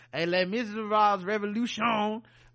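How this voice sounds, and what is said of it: Bad put-on French accent. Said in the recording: “French accent ... That's a terrible, terrible French accent.”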